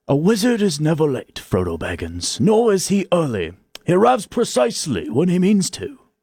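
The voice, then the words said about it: English-accented Gandalf character impression. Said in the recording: “Can you do a Gandalf impression? ... You've got to do the English accent ... That was actually quite good. It was a mix of Jason Statham and Gandalf”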